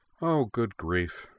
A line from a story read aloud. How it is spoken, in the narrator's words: said